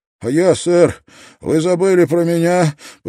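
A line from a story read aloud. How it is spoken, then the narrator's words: Moaning sailor. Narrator (Russian): простонал один из матросов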